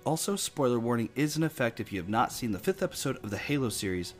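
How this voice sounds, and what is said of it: Slightly off, congested voice. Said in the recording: “apologize for my voice. I'm just getting over a really bad cold. So if my voice sounds a little bit off”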